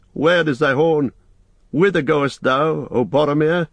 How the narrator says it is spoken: cried

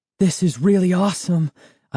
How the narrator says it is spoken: I exclaimed breathlessly to Sari

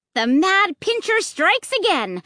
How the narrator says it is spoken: I shouted, remembering Luke's annoying cry

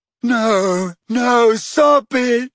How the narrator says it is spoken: squealed moaning Myrtle, her voice echoing loudly around the tiled room

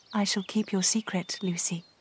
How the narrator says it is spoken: Eleanor said quietly

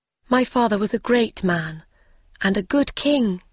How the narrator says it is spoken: she said

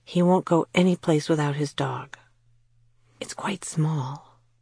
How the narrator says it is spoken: she added in a whisper

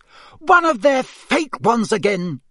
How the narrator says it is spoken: she shouted

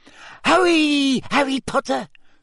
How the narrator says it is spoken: squeaked Dobby

